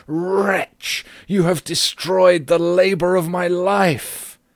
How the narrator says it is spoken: he shrieked aloud

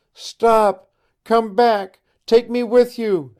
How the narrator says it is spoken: she cried

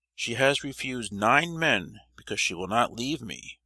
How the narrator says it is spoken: said Maria

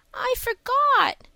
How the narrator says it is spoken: whimpered Davy

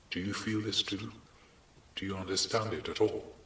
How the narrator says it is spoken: in a new way he wanted to murmur

